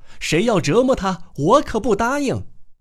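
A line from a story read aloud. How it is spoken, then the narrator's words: Loud cry. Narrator (Chinese): 维尔迪伦夫人高声叫道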